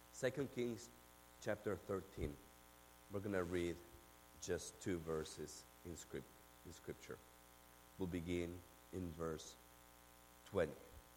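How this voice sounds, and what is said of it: Argentine accent in English. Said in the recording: “yes, I do have an accent. ... I'm from Argentina ... But yes, I do have an accent.”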